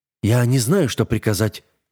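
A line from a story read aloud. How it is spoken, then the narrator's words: Answered quietly. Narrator (Russian): ответил тихо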